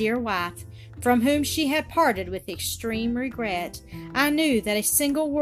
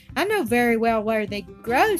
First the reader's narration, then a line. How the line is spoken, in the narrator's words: said he